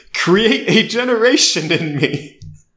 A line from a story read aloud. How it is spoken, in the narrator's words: Rue shouted